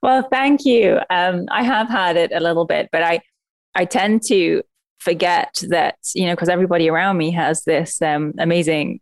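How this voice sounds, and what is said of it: Musical foreign accent. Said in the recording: “your accent because it is so musical to the ears”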